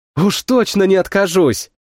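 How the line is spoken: Exclaimed. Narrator (Russian): Воскликнула Сильга

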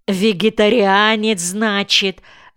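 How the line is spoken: Loud laughing. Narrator (Russian): захохотал Колька

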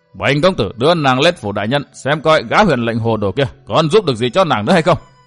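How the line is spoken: Scoffing, harsh emphatic voice. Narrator (Vietnamese): Gã hừ nhạt một tiếng rồi gằn giọng nói tiếp

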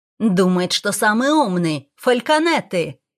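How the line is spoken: Shouting. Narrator (Russian): кричал Смит

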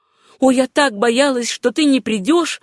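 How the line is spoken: Exclaiming, then forced casual. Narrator (Russian): воскликнула она и добавила, стараясь говорить и вести себя самым непринужденным образом

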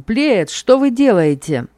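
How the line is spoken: Shouted. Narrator (Russian): Судья выкрикнул

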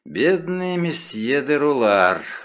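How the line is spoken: Sighing. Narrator (Russian): вздохнул он

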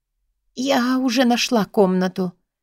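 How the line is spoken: Whisper, head down. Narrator (Russian): шепотом говорю я, не поднимая головы

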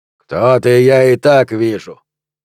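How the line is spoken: Angry booming accented voice. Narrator (Russian): прогремел из закрытого окна сердитый голос с грубым акцентом

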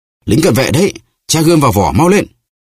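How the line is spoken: Two voices crying out. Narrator (Vietnamese): Porthos và Aramis cùng kêu lên

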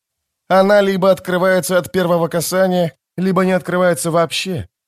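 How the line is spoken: Surprisingly calm voice. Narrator (Russian): удивительно спокойным голосом сказала Апсалар

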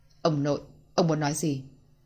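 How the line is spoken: Cold. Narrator (Vietnamese): Louis Tình Yêu liền lạnh lùng cất lời

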